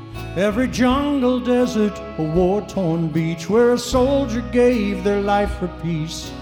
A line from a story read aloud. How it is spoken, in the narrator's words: God cried